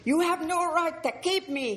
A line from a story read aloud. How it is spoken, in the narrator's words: he yelled